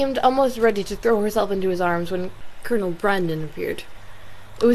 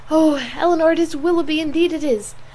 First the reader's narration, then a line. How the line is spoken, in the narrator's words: In the ecstasy of her feelings exclaiming